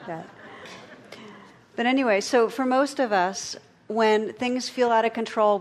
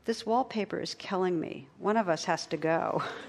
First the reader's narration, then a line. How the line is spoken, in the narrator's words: on his deathbed was drifting in and out of consciousness, he was heard to murmur